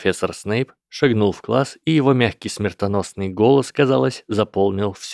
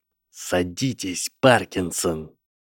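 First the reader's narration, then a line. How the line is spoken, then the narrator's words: Hissing. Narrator (Russian): прошипел мастер зелий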